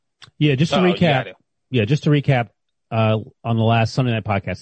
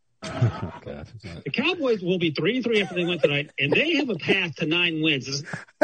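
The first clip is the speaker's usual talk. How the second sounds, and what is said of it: Imitates another person's voice. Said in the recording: “That's ... imitating me”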